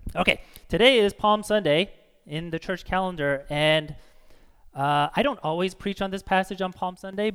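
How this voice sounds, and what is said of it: Strained, hoarse voice. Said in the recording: “I'm like losing my voice already from all the singing”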